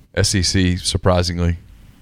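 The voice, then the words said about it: Sarcastic tone. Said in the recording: “I say that sarcastically.”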